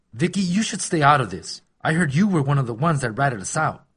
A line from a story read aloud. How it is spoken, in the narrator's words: Steve growled